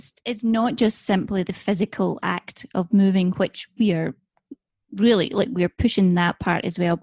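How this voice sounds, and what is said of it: Scottish accent. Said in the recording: “the Scottish accent?”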